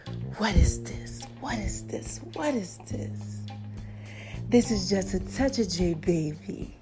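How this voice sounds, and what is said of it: Put-on sexy voice. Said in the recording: “Let me get my sexy voice on. Y'all know my sexy voice is like a Janet Jackson / Barry White.”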